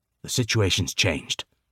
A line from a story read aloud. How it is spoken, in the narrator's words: Professor Lovell said curtly